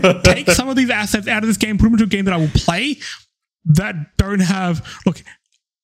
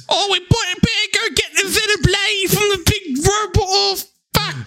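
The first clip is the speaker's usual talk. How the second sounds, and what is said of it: Poor put-on British accent. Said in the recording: “sound like my shitty British accents”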